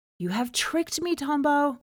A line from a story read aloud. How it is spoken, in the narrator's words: he cried to the water